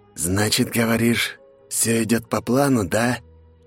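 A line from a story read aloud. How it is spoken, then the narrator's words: Hoarse snake-like hiss. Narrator (Russian): Сиплый голос перста похож на змеиное шипение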